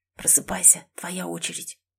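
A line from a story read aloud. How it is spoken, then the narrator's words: Whispering. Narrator (Russian): зашептал он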